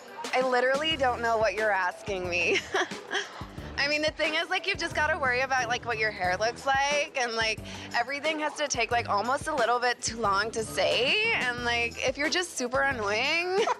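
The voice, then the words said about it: Put-on American Valley girl accent. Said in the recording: “Do you want to hear Bali? ... She's going to give us the Valley”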